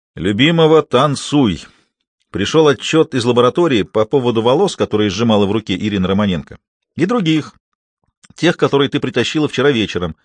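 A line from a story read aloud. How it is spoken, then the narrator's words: Loud announcement. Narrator (Russian): он громко объявил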